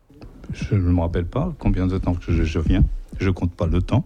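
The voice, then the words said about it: Slight Portuguese accent in French. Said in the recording (French): “tu as un petit accent lié à ton origine portugaise”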